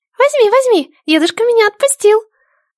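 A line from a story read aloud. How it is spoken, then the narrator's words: Joyful squeak. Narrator (Russian): Радостно пропищал голосочек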